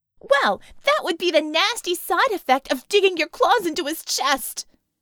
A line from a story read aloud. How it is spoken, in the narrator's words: Scope screamed